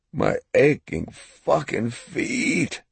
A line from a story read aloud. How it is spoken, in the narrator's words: he moaned